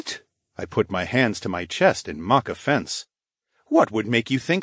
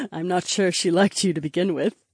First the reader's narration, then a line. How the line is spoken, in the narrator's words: the princess giggled